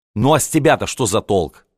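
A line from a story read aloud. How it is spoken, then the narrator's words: Rude question. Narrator (Russian): спросил он грубо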